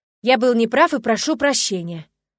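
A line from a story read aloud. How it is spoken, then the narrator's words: Loud and firm. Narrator (Russian): Гаргул произнес громко и твердо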